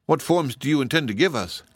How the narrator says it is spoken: asked Woot earnestly

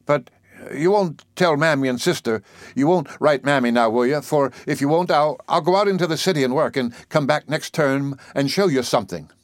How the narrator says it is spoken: he said quickly

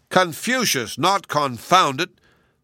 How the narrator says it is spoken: the Queen corrected him crossly

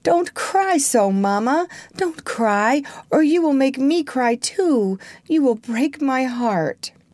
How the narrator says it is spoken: exclaim between his broken sobs

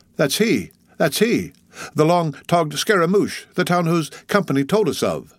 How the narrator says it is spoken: Stubb had exclaimed

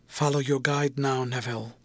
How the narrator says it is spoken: murmured Helena

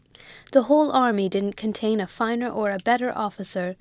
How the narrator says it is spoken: the soldier said

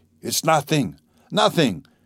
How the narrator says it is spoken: he cried to the mother and sister

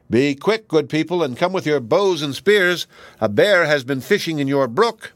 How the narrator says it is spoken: he called out loudly

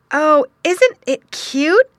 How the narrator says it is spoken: exclaimed a voice

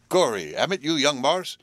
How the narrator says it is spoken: he exclaimed

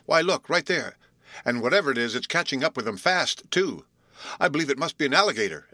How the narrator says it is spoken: exclaimed Will

